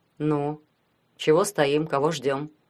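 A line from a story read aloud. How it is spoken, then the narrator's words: Gloomy. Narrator (Russian): сказал Ванька мрачно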